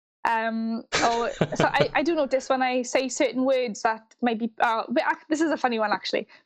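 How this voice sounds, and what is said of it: Strong Welsh accent. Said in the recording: “your accent is so strongly Welsh”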